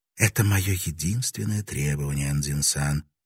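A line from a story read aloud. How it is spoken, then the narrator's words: Whisper. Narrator (Russian): прошептала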